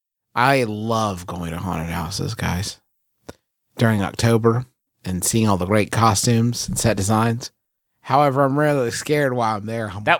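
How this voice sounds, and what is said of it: Appalachian accent. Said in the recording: “This darn Appalachian accent.”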